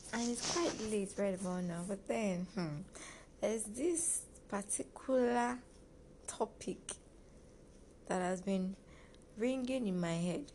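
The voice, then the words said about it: Relaxed, mellow late-night voice. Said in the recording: “I am feeling a little bit chilled, as you can hear from my voice.”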